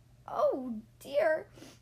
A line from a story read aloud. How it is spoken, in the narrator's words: cried